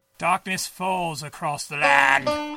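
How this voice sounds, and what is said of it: Bad Vincent Price impression. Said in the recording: “your bad Vincent Price impression”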